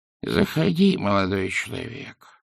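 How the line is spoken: Quavering old voice. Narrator (Russian): произнес дребезжащим старческим голосом сидящий

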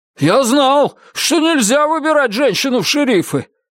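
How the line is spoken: Man shouting over shoulder. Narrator (Russian): крикнул один мужчина через плечо

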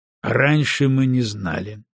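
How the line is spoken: Dry reply. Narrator (Russian): сухо ответил Маккензи

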